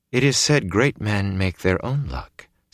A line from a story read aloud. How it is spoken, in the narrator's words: Celine said softly